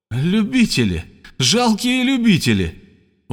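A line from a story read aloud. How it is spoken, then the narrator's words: Calm shouting. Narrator (Russian): невозмутимый кричал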